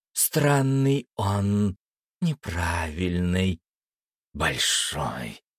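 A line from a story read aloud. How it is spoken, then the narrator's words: Vampire hissing from behind. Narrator (Russian): прошипел у меня за спиной вампир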